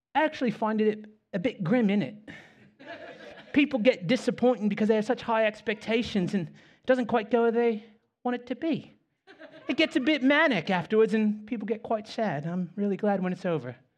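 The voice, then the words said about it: Imitated British accent, poorly done. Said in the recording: “British guy, I'm going to butcher the accent”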